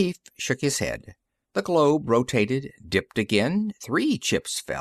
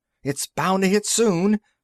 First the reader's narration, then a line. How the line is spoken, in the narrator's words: another voice added excitedly